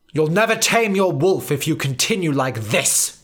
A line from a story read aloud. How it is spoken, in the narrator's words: snapped Professor Banner in his head